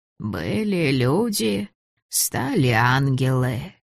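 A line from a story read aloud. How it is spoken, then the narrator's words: Creaky inner voice. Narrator (Russian): проскрипел в голове голос бабы Гарпины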